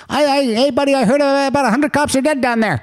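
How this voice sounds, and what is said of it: Bad put-on Chicago accent. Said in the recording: “Is that the Chicago accent? ... a really bad Chicago accent”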